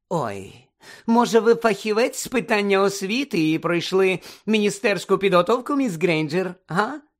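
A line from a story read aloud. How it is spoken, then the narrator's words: Falsely sweet question. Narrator (Ukrainian): Поцікавилася своїм лицемірно-солодким голосом професорка Амбридж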